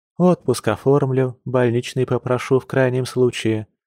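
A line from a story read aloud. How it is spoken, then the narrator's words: Sighing, fear easing. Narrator (Russian): вздохнула она, чувствуя, как страх и ужас стали немного отступать прочь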